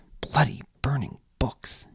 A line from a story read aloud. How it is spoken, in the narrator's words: muttered